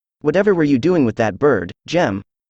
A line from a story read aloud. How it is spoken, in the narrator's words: says she